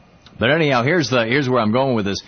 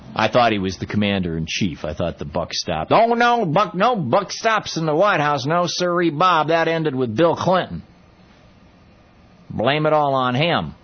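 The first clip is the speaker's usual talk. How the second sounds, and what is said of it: Lousy put-on Texas accent. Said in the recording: “I do a lousy Texas accent, don't I?”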